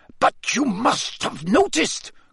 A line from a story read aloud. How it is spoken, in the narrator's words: Karkaroff began in an agitated voice